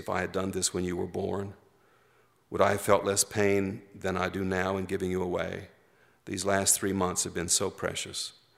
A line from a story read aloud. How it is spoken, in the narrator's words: whispered close to his face